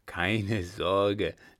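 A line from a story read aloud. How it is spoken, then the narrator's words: Laughing. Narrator (German): lachte der Baron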